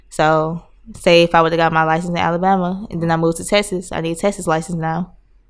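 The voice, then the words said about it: Slight Southern American accent. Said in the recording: “I see you picked up like a little southern accent. I hear it when you talk a little.”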